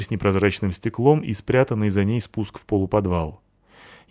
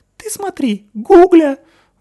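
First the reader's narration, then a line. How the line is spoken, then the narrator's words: Admiring squeaky falsetto, fat man. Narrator (Russian): восхищенно пищал неожиданным для такой комплекции фальцетом жиробас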